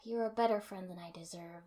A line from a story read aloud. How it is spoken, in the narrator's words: I said, sighing